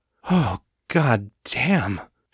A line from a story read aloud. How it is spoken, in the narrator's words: she sighed